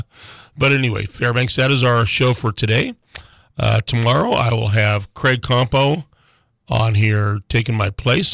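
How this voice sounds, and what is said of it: Hoarse voice. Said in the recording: “a little bit of a hoarse voice this morning”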